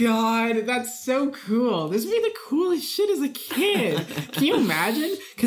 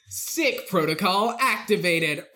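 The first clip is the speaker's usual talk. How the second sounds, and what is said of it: Robotic voice. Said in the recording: “a robot voice goes”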